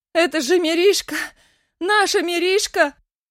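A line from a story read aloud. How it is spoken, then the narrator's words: Wild crowd screaming. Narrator (Russian): Дикими голосами вопили цыгане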